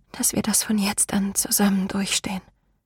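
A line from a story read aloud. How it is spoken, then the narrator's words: Whisper. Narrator (German): flüsterte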